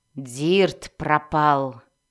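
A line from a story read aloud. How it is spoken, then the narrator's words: Growled. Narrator (Russian): прорычала Мелис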